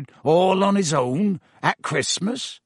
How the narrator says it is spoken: choked Hagrid

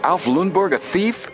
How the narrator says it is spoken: Frank exclaimed

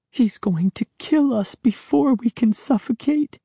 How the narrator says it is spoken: Sari wailed

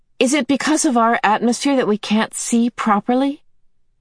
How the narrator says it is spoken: She asked anxiously

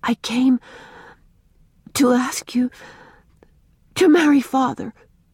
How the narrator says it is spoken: she gasped

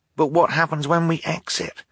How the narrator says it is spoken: Klaus whispered back

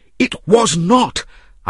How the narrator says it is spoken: cried

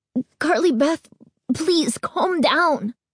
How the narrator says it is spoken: Sabrina urged, but her voice came out choked and frightened

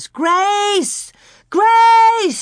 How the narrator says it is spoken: she screamed

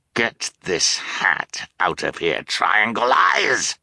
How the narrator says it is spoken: Count Olaf snarled

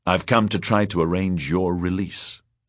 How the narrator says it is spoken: said Carr, and in a very calm voice

